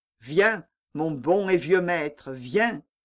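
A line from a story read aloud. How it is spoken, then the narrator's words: Plain. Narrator (French): dit-il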